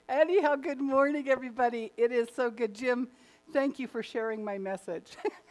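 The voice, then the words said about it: Hoarse, throat-clearing voice. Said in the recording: “So if I keep doing this kind of hoarse sounding thing”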